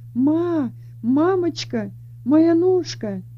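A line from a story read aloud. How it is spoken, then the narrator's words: Moaning then screaming. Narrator (Russian): стала стонать, а потом закричала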